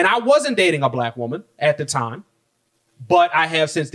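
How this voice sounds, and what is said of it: Usual voice. Nothing is said of it.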